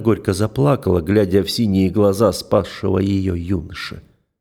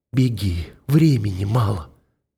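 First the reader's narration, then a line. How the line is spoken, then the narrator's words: Broken, exhausted voice. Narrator (Russian): надломленным, измученным голосом проговорил Джамаль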